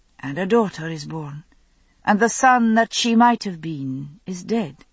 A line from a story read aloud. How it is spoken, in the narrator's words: she said quietly